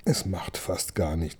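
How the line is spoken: Grumbling. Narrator (German): brummte

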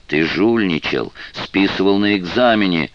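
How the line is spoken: Distant shouting. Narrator (Russian): кричали где-то в глубине западного крыла

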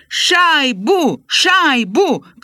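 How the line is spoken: Crowd chanting. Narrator (Belarusian): крычаць, як на хакейным матчы

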